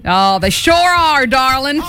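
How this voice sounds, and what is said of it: Put-on country accent. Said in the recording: “my country accent.”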